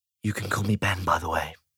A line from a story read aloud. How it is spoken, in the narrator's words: he whispered